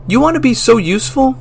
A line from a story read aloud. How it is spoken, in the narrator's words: yelled